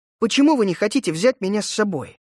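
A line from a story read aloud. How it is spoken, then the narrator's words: Irritated. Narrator (Russian): раздраженно ответил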